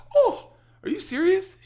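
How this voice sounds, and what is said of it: Imitates another person's voice. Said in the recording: “This is my impression. Like, this is my impression of LeeAnn.”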